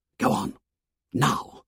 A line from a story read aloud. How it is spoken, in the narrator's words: He whispered urgently to the others